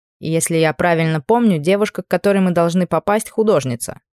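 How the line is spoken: Plain. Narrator (Russian): спросил Анри

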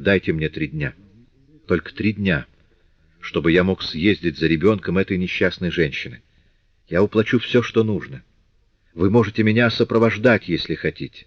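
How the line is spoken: Fast and very quiet. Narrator (Russian): Жан Вальжан проговорил быстро и очень тихо

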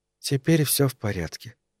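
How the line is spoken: Whispered. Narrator (Russian): прошептала она

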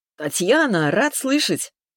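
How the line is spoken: Cheerful voice. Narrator (Russian): Голос звучал бодро

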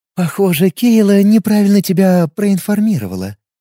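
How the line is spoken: Purring young woman. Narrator (Russian): промурлыкала девушка

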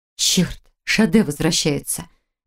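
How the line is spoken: Frightened whisper. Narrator (Russian): испуганно прошептала Хильда

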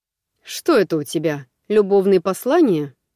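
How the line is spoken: Scoffing grunt. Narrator (Russian): хмыкнул он

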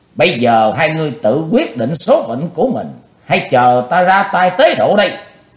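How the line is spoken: Loud shout. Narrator (Vietnamese): Chí Tôn hét lớn

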